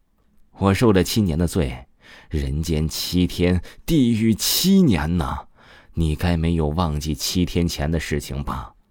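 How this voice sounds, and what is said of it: Mocking, sneering voice. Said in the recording (Chinese): “用讥笑的声音说道”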